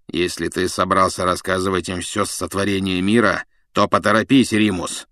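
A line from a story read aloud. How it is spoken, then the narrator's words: Grumbling. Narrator (Russian): проворчал Блэк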